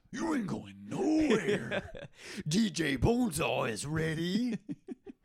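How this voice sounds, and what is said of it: Imitates another person's voice. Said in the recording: “I'm gonna do the Macho Man Randy Savage.”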